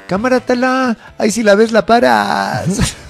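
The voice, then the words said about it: Put-on Mexico City chilango accent. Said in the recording (Spanish): “todo es más divertido en acento chilango.”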